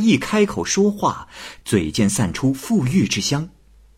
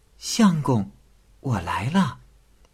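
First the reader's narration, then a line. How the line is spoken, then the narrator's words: Whispered in ear. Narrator (Chinese): 那美人贴着贾凤志的耳朵，小声的叫道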